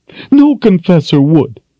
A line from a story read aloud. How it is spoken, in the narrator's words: she sobbed